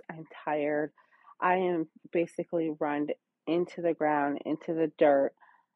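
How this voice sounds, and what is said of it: Tired, exhausted-sounding voice. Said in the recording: “So I am exhausted. That's probably why I sound a little funny... hear the exhaustion in my voice.”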